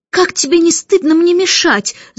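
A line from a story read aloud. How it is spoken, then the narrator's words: Shouted. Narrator (Russian): закричала она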